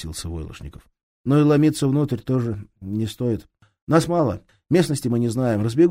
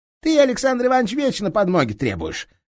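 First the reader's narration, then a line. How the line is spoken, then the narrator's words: Laughing. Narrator (Russian): рассмеялся Моисеенко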